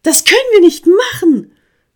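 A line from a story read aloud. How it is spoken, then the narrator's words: Calling again. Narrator (German): rief Hanni erneut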